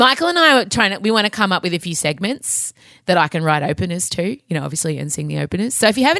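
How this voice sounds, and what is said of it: Usual voice. Nothing is said of it.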